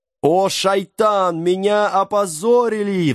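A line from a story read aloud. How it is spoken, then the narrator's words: Wailing. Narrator (Russian): взвыл джин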